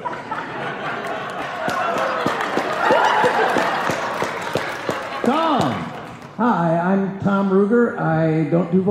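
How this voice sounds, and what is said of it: Usual voice. Nothing is said of it.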